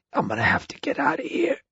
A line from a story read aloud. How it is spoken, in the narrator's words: Ed wheezed, as he tried to catch his breath